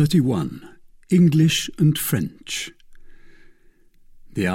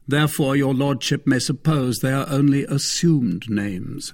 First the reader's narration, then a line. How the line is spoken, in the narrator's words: said Athos